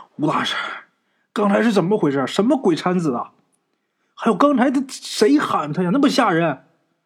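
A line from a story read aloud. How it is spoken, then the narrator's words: Breathless asking. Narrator (Chinese): 陈四啊跑的直喘粗气啊，就问吴大师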